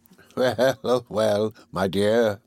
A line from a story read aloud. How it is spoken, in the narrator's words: said her father with a quiet laugh